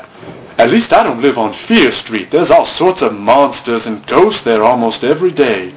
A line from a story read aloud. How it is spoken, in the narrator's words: Drew replied